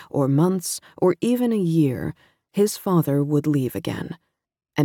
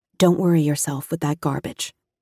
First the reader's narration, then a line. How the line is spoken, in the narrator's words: she said, her voice steady